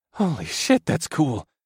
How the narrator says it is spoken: I breathed

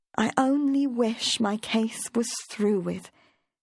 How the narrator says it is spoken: said wistfully

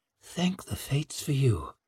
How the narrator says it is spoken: murmured Savine

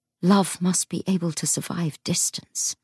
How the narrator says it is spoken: he said as gently as he could

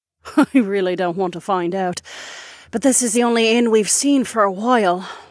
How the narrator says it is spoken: Sorsha sighed

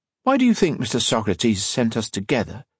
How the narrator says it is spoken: he asked

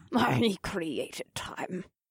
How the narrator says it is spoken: chuckled to myself

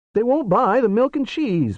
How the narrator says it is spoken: Barry whined

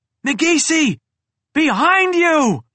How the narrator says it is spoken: I yelled

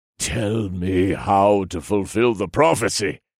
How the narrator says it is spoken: snarled

